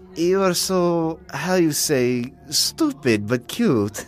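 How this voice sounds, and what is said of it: Sexy Québécois French accent. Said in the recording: “this gorgeous chick from Quebec ... She had this accent that made even dumb shit sound sexy.”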